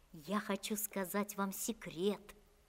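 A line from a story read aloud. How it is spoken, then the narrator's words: Whispered in ear. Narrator (Russian): шепнул на ухо своей новой приятельнице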